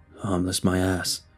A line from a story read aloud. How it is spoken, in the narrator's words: he grumbled